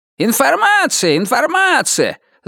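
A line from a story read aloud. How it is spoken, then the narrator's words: Shouting to crowd. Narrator (Russian): закричал он в толпу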